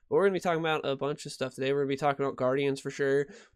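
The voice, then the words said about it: Congested, slightly nasal voice. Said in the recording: “You can probably still hear it. My voice is still a little stopped up, still a little nasally”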